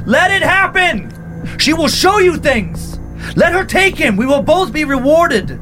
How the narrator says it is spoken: From far down the tunnel, he heard Antonio yell

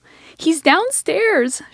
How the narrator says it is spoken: she shrieked

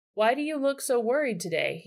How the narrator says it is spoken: he asked them

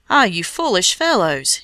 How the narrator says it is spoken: he cried

